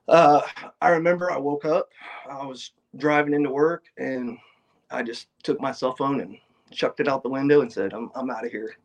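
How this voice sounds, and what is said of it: Choked up, emotional voice. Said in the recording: “you're getting a little choked up right now”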